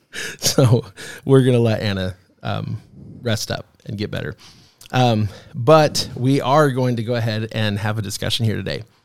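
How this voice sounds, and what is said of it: Deeper voice, sounds sick. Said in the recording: “you sound a little different today... My voice got deeper. It's because I'm sick.”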